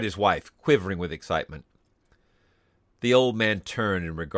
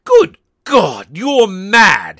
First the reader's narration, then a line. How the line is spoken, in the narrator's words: he cried aghast